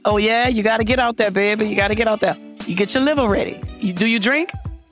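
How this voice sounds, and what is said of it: New Orleans accent. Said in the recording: “we with that New Orleans accent”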